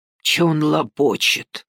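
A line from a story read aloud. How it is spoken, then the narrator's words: Wary whisper. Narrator (Russian): опасливо прошептал Пат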